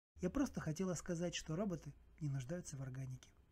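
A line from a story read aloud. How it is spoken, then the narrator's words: Calm reply. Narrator (Russian): спокойно ответила Маха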